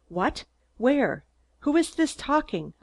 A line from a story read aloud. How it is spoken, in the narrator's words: I shouted breathlessly